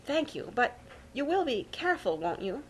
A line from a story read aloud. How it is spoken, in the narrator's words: pleaded